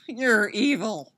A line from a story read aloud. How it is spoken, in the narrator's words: Styles moans